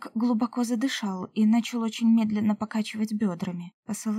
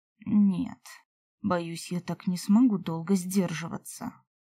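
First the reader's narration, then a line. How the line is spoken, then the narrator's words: Muttering. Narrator (Russian): пробормотал эльф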